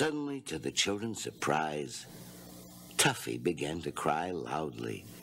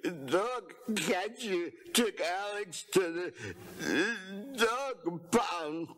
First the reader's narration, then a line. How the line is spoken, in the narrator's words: Tuffy explained between sobs